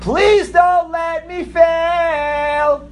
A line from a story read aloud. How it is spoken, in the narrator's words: He screamed to the Eibishter